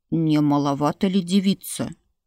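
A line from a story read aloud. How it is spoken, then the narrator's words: Grumbling priest. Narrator (Russian): Брюзжащим голосом осведомился жрец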